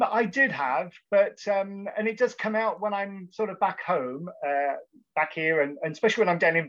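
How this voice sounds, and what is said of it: Usual voice. Nothing is said of it.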